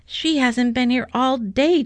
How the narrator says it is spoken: Joseph cried

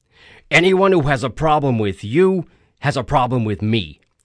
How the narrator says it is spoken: Tony said angrily

